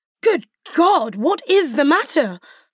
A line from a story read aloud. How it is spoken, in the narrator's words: cried he, with more feeling than politeness